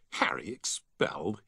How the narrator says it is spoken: he scoffed

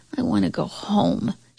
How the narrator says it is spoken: murmured into her pillow

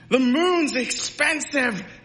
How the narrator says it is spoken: the people yelled back at her

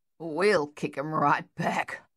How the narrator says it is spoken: Luther growled

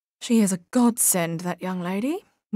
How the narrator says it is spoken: murmured Edna

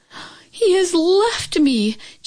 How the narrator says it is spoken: Chin Yu Min cried out

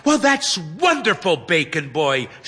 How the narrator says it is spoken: she exclaims

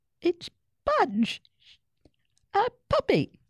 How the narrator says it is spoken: she giggled

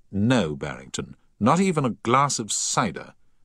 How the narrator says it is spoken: said Paget firmly

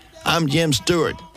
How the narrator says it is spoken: the man said

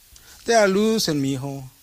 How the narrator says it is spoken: Papa groans

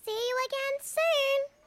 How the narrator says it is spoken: Kip called out in his little squeaky voice

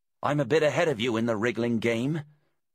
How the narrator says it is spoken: Gemma said, grunting with effort

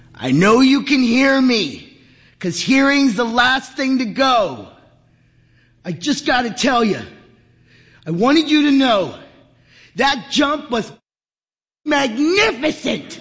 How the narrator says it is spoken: Henry leaned in close and bellowed into his ear

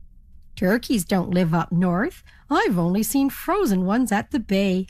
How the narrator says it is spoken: laughed the ferry captain

